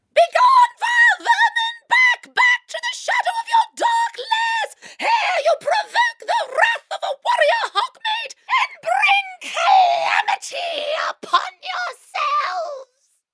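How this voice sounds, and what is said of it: Shrill, ladylike character voice. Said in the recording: “Your voice is far too shrill and ladylike.”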